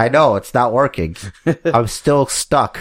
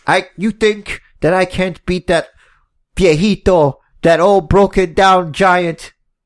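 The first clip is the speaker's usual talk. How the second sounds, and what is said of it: Fake Spanish accent. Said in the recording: “can't do a, a fake Spanish accent.”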